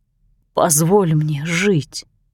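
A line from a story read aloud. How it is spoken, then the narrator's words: Moaning. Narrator (Russian): простонал Уильям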